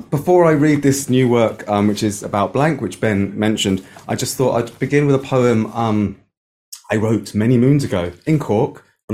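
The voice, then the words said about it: Irish Cork accent. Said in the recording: “You notice by my accent, I lived in Cork for a long time.”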